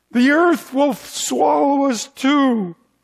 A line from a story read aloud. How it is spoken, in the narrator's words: cried